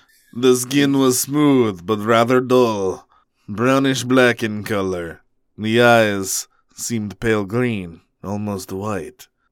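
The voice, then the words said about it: Dracula-like character voice. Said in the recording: “you started to do a voice ... I'm turning into Dracula.”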